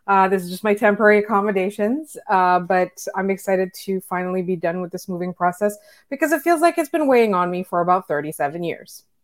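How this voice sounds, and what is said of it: Strained, worn-out voice. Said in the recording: “my voice is kind of shot”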